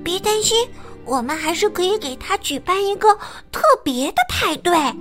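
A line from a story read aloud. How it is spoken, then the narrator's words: Whisper. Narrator (Chinese): 胆小鼠小声的把计划告诉两个伙伴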